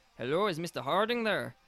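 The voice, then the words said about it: Attempted Irish accent. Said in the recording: “in an Irish voice ... I was trying to be Irish. ... I said with an Irish accent ... I don't think they sound Irish.”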